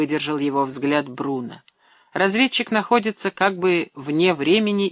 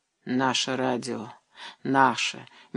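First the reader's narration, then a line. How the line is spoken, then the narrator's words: Soft correction. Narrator (Russian): мягко поправил Бруно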